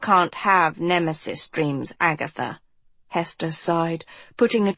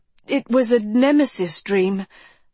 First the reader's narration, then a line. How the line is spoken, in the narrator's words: Agatha stammered